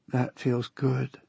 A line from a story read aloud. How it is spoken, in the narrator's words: whispered in my ear